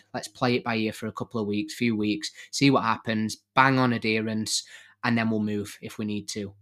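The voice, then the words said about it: Voice with a cold, coughing. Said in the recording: “I've got a cold in case you can hear me going coughing a little bit”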